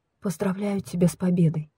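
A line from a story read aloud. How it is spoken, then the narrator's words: Quiet, turned away. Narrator (Russian): не оборачиваясь на меня, она тихо проговорила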